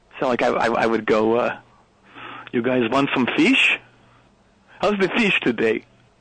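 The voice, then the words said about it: Imitated Norwegian accent. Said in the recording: “imitating the Norwegian accent around the crew. And I've got a pretty good ear for accents. I'm pretty good at them. ... This is your imitation of the people of Norway.”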